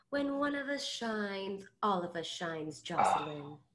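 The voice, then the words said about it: Moira Rose impression. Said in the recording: “Moira Rose says ... That's such a good solid impression of her.”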